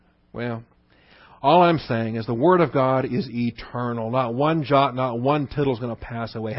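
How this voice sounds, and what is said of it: Usual voice. Nothing is said of it.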